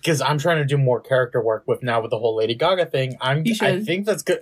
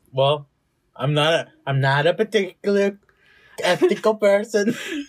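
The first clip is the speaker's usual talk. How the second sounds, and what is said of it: Put-on Swedish accent. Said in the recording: “I hate your fucking Swedish accent.”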